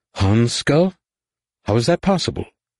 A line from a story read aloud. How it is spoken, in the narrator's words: marveled in a distracted tone